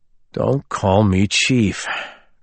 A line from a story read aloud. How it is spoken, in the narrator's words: Colborn said with a sigh that suggested it wasn't the first time he'd given that instruction